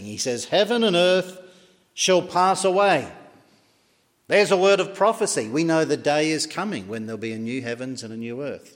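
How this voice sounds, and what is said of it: Australian accent. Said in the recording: “as you can tell by my brogue, I wasn't born in Larne ... I was born in Western Australia”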